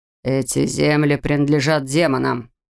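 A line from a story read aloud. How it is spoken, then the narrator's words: Growled. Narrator (Russian): Рыкнул мужчина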